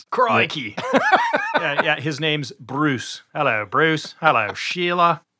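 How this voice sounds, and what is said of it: Bad put-on Australian accent. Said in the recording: “I'm not going to do an Australian accent ... my bad accent ... his bad accent”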